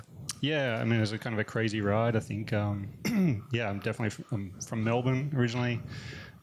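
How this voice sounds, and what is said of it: Softened Australian accent. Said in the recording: “people would probably recognise the accent as being Australian ... we've softened a bit, I think ... Yeah, well, it's still there.”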